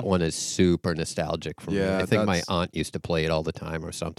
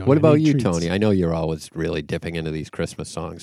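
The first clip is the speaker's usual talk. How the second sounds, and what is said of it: Sarcastic tone. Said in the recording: “I'm being sarcastic.”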